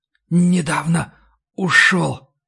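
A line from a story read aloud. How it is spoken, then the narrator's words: Whisper. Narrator (Russian): прошептал вампир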